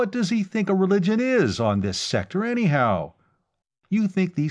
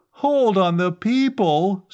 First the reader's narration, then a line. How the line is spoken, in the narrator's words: Stranor Sleth fairly howled